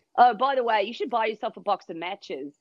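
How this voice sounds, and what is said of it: Good put-on Australian accent. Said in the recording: “You do the accent so well as well ... my mother's Australian, so I have a leg up”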